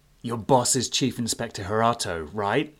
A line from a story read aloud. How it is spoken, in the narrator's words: MC growled